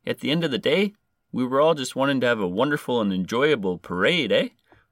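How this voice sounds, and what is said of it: Put-on Canadian accent. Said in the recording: “I'm trying to do a Canadian accent for this guy... I don't even know why I'm changing my voice.”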